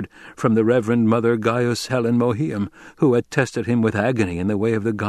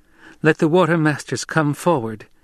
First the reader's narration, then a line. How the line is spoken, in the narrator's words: Chani said, with only the slightest quaver of uncertainty in her girl-child voice